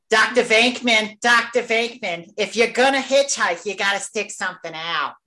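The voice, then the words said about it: Imitates another person's voice. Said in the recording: “I'm gonna do my best Annie Potts.”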